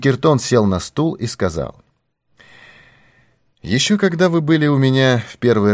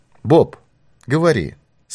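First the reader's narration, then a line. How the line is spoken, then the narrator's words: Plain. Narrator (Russian): сказал Пинкертон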